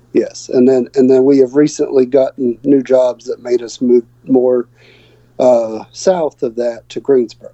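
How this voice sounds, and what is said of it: Slight Southern US accent. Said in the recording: “I can hear your accent, your southern accent, and all coming through a little bit.”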